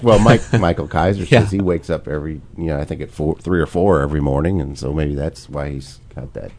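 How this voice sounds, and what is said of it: Unusually deep, tired voice. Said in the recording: “you tell I woke up at 3 in the morning last night and never fell back asleep. My voice always gets deeper. ... Radio voice. ... It's the Barry White effect.”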